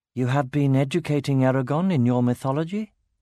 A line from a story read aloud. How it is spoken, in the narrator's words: Ganel smiled flatly